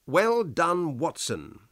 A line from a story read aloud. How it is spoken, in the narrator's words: said